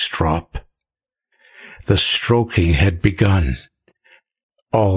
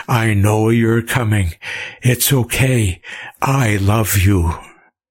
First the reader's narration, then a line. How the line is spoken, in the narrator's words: he gasped